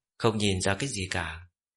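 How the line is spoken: Calm smiling woman. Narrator (Vietnamese): Yên tâm nương, nữ chủ nhân của Bất Nhị Sơn Trang ung dung mỉm cười

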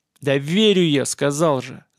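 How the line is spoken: Growled. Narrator (Russian): зарычал герцог

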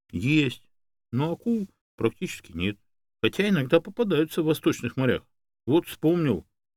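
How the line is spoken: Joyful squeal. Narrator (Russian): я радостно взвизгнул

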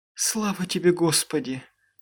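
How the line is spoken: Sobbing. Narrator (Russian): всхлипывала миссис Конклин

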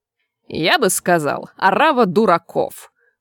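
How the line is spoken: Snorting. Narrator (Russian): фыркнул заведующий кафедрой бесконечных студий

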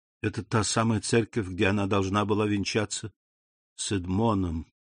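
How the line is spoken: Whisper, old priest. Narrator (Russian): прошептал аббат

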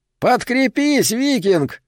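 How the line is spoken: Shout then laughter. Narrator (Russian): крикнул кто-то и засмеялся

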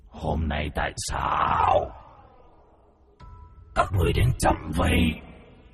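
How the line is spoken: Deep gruff voice. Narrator (Vietnamese): Từ trong cái kiệu, giọng nói ồm ồm vang lên

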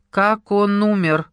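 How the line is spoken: Sudden loud question. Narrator (Russian): Внезапно громко спросил чей-то голос

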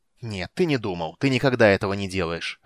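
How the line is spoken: Snapping retort. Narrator (Russian): огрызнулся Рейстлин

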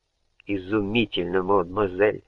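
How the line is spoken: Muttering in French. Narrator (Russian): бормотала по-французски Жанна

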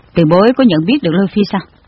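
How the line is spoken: Cold question. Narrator (Vietnamese): Hàn công tử lạnh lùng hỏi

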